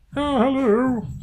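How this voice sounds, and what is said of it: Imitates Marvin the Martian cartoon voice. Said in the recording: “I'll be Marvin the Martian... Good impression.”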